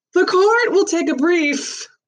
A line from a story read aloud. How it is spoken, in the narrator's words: announced loudly